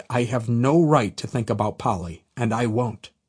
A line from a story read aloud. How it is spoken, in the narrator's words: I coldly stated